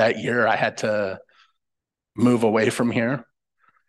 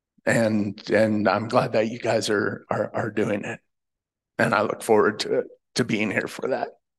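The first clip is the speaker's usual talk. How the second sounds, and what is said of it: Choked up, emotional voice. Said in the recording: “getting choked up”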